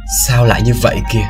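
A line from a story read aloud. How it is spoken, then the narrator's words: Miserable mutter. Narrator (Vietnamese): Hắn khổ sở lầm bầm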